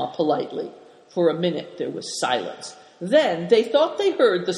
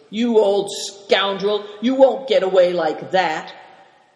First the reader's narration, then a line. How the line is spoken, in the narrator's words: Greencoat saying angrily